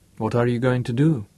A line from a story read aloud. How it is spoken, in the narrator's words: Her voice was unruffled